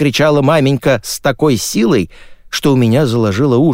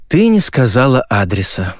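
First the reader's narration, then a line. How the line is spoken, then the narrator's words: Sighing. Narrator (Russian): вздохнул я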